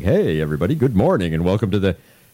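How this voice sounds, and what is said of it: Imitated radio announcer voice. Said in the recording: “I'll greet you with my radio voice”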